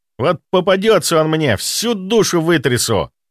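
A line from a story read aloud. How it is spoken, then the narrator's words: Angry, through gritted teeth. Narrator (Russian): Зло процедил он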